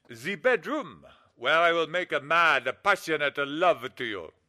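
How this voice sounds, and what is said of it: Phony Italian accent. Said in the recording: “phony Italian accent”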